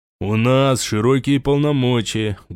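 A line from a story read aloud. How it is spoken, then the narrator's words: Muffled reply. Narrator (Russian): глухо ответил тот же голос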